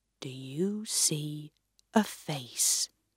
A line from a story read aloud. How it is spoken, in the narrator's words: the wise man asked quietly